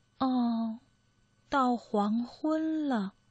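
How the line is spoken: Slow murmur after pause. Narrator (Chinese): 过了好一会儿，它才喃喃的说一句

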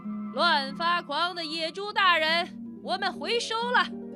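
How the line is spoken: Raised loud shout. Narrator (Chinese): 狼提高嗓门喊了起来

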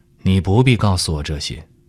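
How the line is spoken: Cool, flat reply. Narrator (Chinese): 堂前淡淡的回道

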